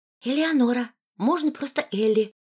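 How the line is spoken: Whispered. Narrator (Russian): прошептала она

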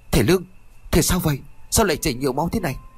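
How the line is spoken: Frantic calling. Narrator (Vietnamese): Y Điêng liền gọi rối rít

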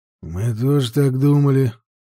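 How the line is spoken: Gloomy older man. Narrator (Russian): мрачно ответил другой Вендел постарше

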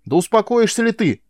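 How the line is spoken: Yelling. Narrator (Russian): завопил на нее

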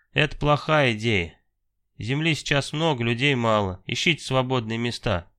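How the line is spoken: Calm. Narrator (Russian): также спокойно ответил Иваныч

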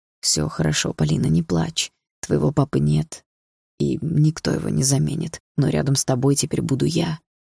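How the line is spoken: Quiet comforting speech. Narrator (Russian): тихо сказал Дима

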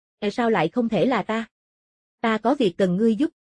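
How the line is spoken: Smiling. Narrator (Vietnamese): Mộ Phong mỉm cười

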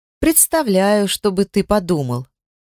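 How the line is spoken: Amused snort. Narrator (Russian): Эльф хмыкнул

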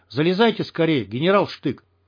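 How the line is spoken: Frightened man. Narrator (Russian): сказал он испуганно

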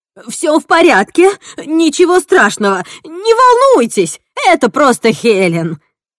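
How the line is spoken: Shout with rising panic. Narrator (Russian): крикнула Эдна с нарастающей паникой в голосе

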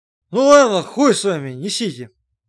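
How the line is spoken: Heavy sigh, weighty pronouncement. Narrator (Russian): Макар тяжело вздохнул и изрек

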